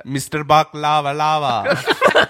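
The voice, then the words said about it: Sung in a put-on South Asian accent. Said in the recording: “Do it in like a South Asian accent. ... But do it like a South Asian guy singing it.”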